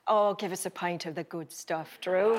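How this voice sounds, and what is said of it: Put-on Irish accent. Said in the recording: “Have you ever done an Irish accent? ... are you trying to get me to do one”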